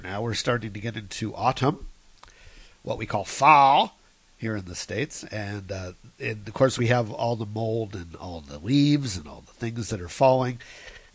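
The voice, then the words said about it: Nasal, congested voice. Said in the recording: “I get a bit of a sinusy thing again going on this week ... that's why I sound nasally today”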